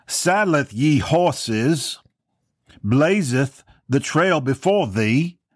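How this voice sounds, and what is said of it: Wobbly put-on British accent. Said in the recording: “talking in King James English, with a British accent, which I struggle with my British accent. Sometimes it becomes an Irish accent and British, and it's back and forth, and then Australia creeps in there. I'm not a good accent guy”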